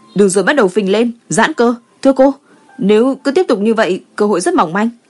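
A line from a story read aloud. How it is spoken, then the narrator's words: Raised voice. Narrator (Vietnamese): cao giọng nói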